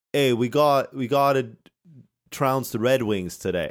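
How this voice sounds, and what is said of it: Failed Boston accent drifting British. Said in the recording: “I tried to do a Boston thing, but it didn't work... I started doing a British accent. This is terrible.”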